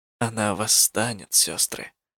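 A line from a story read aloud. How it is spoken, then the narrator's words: Whispering. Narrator (Russian): зашептала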